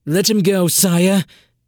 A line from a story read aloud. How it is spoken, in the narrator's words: Henry Gajek said hastily